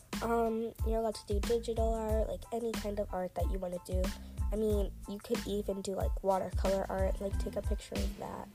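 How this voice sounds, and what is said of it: Weird-sounding sick voice. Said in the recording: “my voice sounds weird. I'm still actually sick.”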